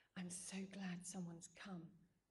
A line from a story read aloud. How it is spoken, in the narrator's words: Eileen whispered